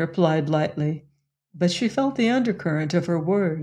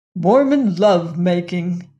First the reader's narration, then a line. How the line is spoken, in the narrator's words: exclaimed the bishop